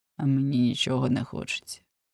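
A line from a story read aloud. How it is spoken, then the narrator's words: Grumble. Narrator (Ukrainian): буркнув Адріан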